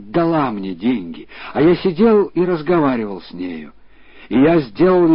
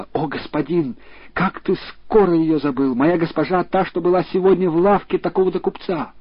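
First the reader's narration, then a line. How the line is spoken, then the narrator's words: Girl exclaiming. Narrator (Russian): девушка воскликнула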